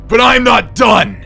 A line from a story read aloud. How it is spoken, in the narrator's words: he screamed